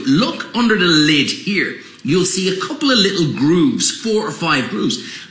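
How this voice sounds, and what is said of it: Slight Irish accent. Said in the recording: “Kind of cool, that Irish accent. ... It's a little Irish.”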